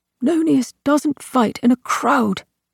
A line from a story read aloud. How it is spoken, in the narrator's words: Autus said tightly